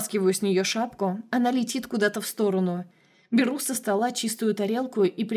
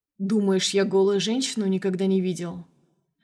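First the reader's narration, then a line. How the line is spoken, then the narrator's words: Calm, unsmiling. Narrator (Russian): Говорю спокойно, но не улыбаюсь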